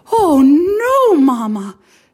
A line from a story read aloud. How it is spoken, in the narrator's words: exclaimed